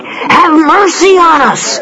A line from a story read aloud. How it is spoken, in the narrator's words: they cried